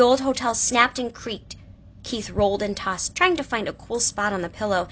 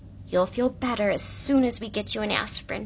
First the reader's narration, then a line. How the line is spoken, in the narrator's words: whispered